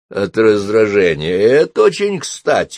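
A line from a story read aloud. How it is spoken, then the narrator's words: Nervous grumble. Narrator (Russian): пробурчала Софи, не без трепета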